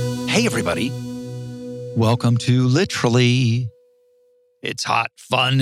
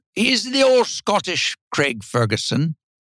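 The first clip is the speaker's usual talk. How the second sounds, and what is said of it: Bad put-on Scottish accent. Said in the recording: “That's the worst Scottish accent anyone's ever done.”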